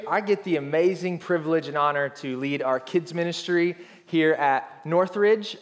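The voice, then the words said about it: Arkansas accent. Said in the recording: “acknowledge an accent that I possess that most of you don't. That's because I'm originally from Arkansas”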